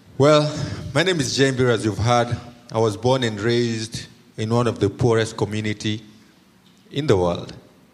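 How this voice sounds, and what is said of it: Thick non-local accent. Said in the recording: “as you can tell from my accent, I'm not from around here... There's going to be a thick accent in the neighborhood.”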